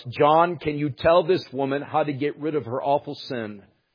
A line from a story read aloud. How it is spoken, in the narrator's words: Cook then cried out